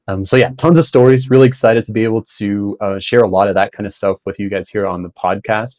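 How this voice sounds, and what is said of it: American accent with an odd mix. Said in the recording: “I'm German Bolivian. I sound American, but kind of a weird mix there. ... There's something like weird about it.”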